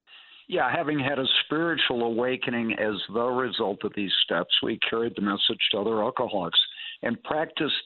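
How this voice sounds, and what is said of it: Slightly slurred speech. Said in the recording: “I'm slurring a little bit. I got a little Novocaine going tonight”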